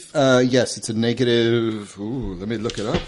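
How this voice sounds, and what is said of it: Spooky voice. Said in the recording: “my spooky voice”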